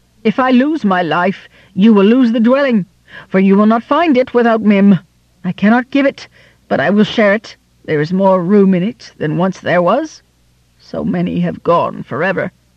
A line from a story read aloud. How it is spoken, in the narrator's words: cried Mim then in great fear